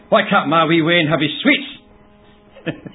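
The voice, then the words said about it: Broader Scottish accent, woman's voice. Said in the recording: “a Scottish female version of Adolf Hitler ... in a broader Scottish accent.”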